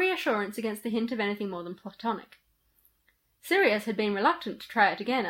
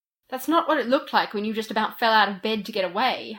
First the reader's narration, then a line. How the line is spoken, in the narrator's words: Harry said